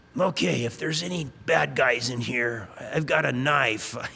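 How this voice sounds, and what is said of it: Put-on deep voice. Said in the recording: “putting on this deep voice.”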